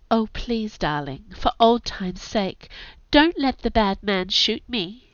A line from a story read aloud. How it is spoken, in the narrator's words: said in a baby voice